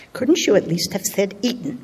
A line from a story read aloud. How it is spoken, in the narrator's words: whispers